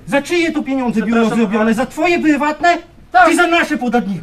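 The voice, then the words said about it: Shouting angrily. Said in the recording (Polish): “Proszę nam nie krzyczeć.”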